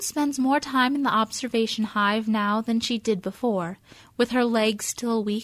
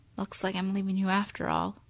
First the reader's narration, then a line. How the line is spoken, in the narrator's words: she whispers